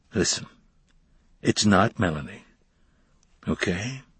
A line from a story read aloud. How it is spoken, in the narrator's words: His voice was unusually soft and gentle and reassuring for a man his size